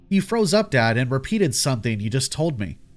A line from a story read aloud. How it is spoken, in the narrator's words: I said